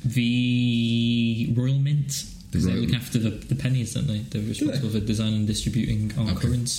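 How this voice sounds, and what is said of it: Put-on posh British voice. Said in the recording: “I'll do a posh voice.”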